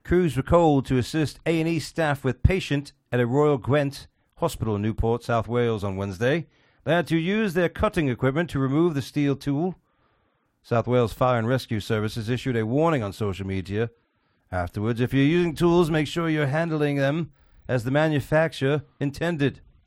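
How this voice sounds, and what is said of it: Put-on British accent. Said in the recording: “Best British accent ever ... Yeah, that was perfect. Was that James Bond?”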